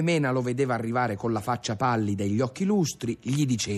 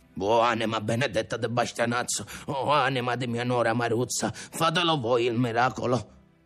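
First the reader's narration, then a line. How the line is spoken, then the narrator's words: Grandfather mumbling. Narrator (Italian): il nonno, col rosario in mano, borbottava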